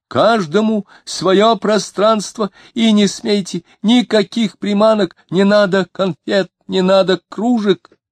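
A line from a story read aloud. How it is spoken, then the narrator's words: Shouting. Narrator (Russian): Диомидов кричал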